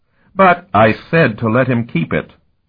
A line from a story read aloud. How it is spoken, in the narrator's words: the primate snapped